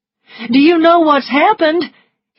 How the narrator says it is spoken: He cried

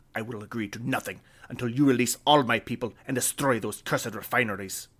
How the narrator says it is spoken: Halifaco snapped

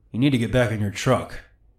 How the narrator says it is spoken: my dad said very calmly

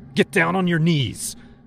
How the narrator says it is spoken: I hollered to their shock

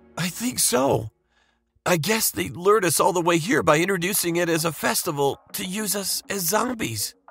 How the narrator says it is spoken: Justin replied in a trembling voice

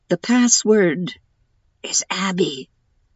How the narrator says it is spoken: he whispered

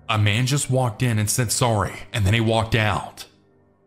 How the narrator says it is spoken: Sammy started yelling

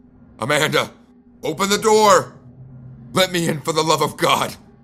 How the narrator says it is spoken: I shouted

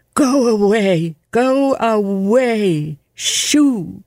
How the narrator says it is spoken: shouted at the strange cat

